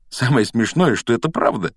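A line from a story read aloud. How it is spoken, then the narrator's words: Giggled. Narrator (Russian): хихикнул Гарри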